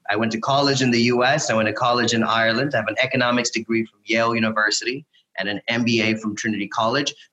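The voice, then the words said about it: American accent. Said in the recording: “I have an American accent, but I'm not American.”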